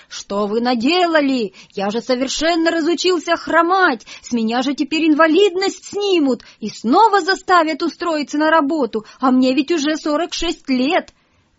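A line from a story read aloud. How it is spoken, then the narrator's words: Shouting. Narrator (Russian): кричал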